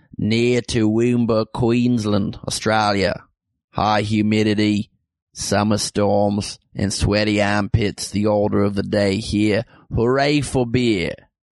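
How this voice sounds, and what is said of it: Put-on Australian accent. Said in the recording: “so of course I have to read it in an Australian accent... I only read that to do the accent”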